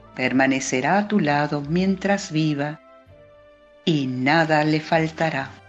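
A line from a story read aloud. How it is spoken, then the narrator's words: Plain answer. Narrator (Spanish): contestó el rey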